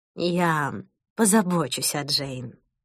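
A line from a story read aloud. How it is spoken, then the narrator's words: Plain. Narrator (Russian): сказала Мадлен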